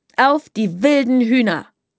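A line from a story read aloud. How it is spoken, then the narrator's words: Said loudly. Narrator (German): sagte Sprotte laut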